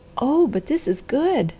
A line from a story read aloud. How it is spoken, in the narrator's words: she cried